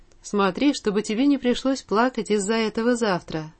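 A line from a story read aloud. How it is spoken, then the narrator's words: Quiet motherly voice. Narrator (Russian): сказала тихо мать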